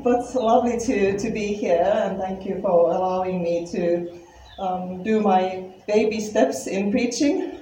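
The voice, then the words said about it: Finnish accent. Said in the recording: “my accent is because I am from Finland ... how come you still have an accent”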